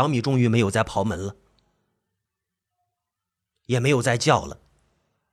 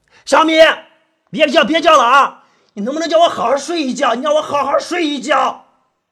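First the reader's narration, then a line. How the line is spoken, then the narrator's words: Angry roar. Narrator (Chinese): 我就冲着卧室门吼着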